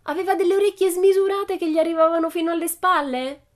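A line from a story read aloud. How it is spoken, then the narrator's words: Shouted. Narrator (Italian): Pippi gridò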